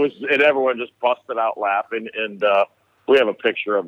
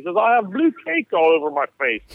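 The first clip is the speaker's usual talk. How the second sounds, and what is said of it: High-pitched very English British accent. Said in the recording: “in the English accent ... like high pitched and very English and very British”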